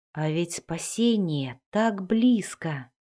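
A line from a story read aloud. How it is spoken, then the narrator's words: Helpless whisper. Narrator (Russian): беспомощно прошептал он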